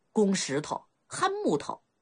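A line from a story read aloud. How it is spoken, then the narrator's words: Chuckling, playful scolding. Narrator (Chinese): 鲁大杠嘿嘿一笑，他俨然一个聪明女子般骂一声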